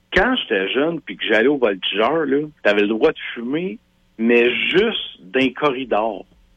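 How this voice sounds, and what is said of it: Quebec regional accent, Drummondville. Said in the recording (French): “je viens de Drummondville ... Clairement, hein? C'est l'accent.”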